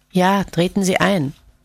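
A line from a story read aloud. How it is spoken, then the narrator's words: Weak, faint reply. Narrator (German): Johannes erwiderte mit matter Stimme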